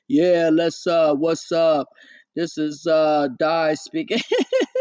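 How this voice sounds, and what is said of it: Put-on dude-like male voice. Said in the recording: “I'm gonna have to start talking like this then ... talking like a dude”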